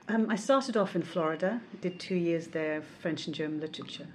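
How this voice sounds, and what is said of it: Mixed accent from various regions. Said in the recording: “your accent, and there are elements of various uh, areas in it”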